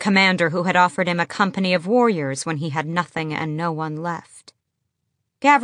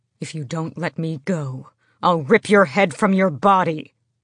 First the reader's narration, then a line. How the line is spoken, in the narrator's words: he snarled at Lorkin